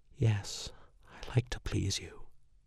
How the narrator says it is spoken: She sighed a little from the pleasure I was giving her and breathed

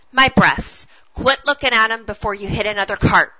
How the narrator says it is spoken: I snapped

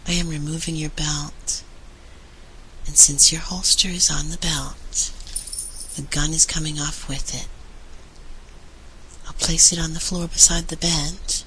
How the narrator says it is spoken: he said gently

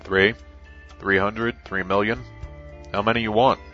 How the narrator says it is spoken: Nina chuckled in amusement

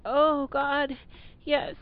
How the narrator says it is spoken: I moaned, feeling my own orgasm begin

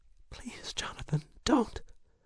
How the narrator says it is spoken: She balked for a moment, whimpering

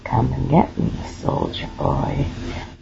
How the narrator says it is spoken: say with a husky growl

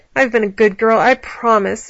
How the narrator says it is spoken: Allie whined

